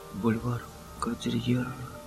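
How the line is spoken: Whispering. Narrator (Russian): шептал Том

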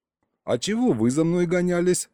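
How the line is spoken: Skeptical snort. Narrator (Russian): хмыкнул я

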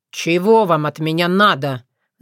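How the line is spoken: Boy's angry snap. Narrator (Russian): зло окрысился мальчишка

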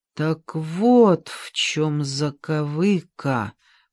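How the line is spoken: Drawn-out. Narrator (Russian): протянула я

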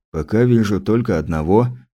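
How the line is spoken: Calm statement. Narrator (Russian): спокойно заявил федерал

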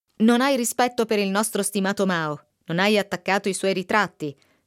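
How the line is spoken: Thundering angry greengrocer. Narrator (Italian): tuonò il fruttivendolo serrando i pugni

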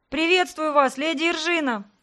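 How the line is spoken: Deep joyful voice. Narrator (Russian): Глубокий голос Карины звучал явно радостно

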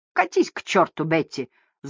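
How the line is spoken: Angry hiss. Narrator (Russian): зло прошипела Мэдж

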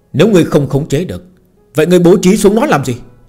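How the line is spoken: Old ancestor's bursting shout. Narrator (Vietnamese): Một lão tổ tịnh thổ sớm đã kìm nén không được, mở miệng quát hỏi

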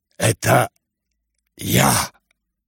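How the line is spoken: Whispered. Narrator (Russian): прошептал Рогожин

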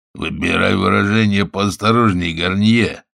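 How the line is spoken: Growl. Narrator (Russian): зарычал Жак

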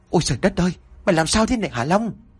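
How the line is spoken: Panicked scream. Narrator (Vietnamese): cái bóng đó kêu lên thất thanh

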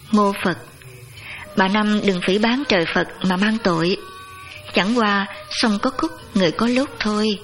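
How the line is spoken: Monk's gentle speech. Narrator (Vietnamese): Nhà sư dịu dàng nói

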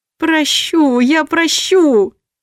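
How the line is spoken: Moaning. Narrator (Russian): стонала я

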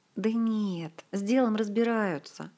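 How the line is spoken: Sigh. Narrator (Russian): вздохнул Артура

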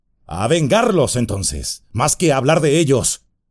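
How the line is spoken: Exclaimed. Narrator (Spanish): exclamó Aragorn

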